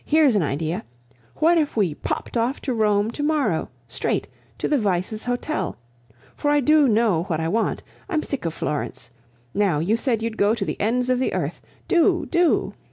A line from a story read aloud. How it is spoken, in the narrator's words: cried the girl suddenly